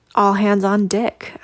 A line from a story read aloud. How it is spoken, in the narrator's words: I exclaimed